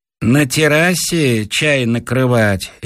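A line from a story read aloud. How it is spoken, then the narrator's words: Lazy question. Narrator (Russian): лениво спрашивает мой слуга Ленька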